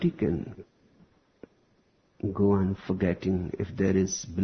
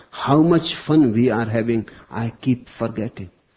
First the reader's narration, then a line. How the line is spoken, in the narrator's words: she cried between blue lips